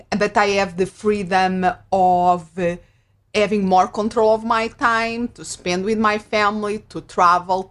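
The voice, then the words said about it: Portuguese accent. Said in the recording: “If somebody's listening to the accent, ... I'm originally, yep, from Portugal”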